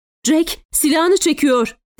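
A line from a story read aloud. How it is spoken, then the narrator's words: Shouting. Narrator (Turkish): diye bağırdı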